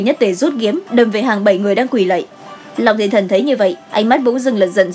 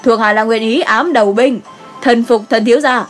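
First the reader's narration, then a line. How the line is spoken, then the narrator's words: Kneeling shout. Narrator (Vietnamese): cái tên quỳ xuống đầu tiên cũng là la lên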